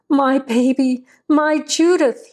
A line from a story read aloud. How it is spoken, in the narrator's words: he screamed